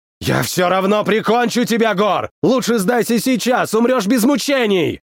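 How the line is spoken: Shouting again. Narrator (Russian): Вновь выкрикнул Брок

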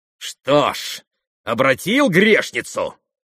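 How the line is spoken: Malicious laugh. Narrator (Russian): Злобно засмеялся он

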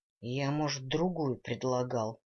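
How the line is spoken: Grumbling. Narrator (Russian): проворчал он

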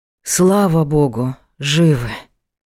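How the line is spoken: Relieved exhale. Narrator (Russian): Выдохнул Правдин

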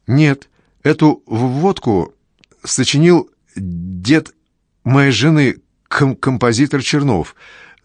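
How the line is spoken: Father stammering. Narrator (Russian): заикается мой папа

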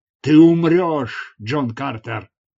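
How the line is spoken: Roaring. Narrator (Russian): взревел он

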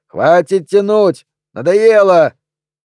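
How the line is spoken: Spectator whistling and shouting. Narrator (Russian): Кто-то из зрителей засвистел и крикнул

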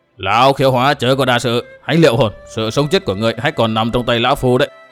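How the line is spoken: Threatening voice. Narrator (Vietnamese): Lão liền với giọng đe dọa nói

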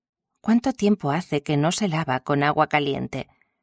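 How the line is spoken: Insisting, very kind tone. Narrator (Spanish): insistió en el tono más amable posible

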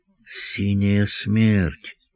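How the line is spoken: Whisper. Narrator (Russian): прошептал Хрусталев

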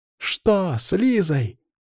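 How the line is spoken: Shouting. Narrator (Russian): закричала Анна

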